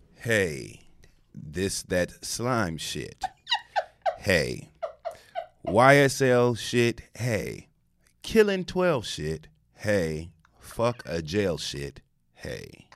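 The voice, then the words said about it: Impression of Judge Glanville reciting lyrics. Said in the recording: “in your best Judge Glanville voice”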